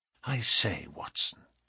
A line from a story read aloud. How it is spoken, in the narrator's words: whispered